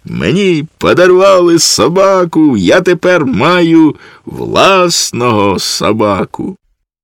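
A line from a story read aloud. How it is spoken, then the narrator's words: Child shouting. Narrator (Ukrainian): Малий закричав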